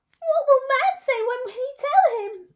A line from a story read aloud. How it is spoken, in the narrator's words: they cried